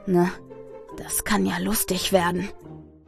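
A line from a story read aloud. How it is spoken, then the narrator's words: Whispered. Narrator (German): flüstert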